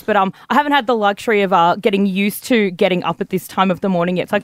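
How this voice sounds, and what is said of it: Rough, lowered sick-sounding voice. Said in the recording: “I have been a little bit crook. And as you can probably hear in my voice, I actually sound like a lilting soprano compared to how I've sounded the last couple of days”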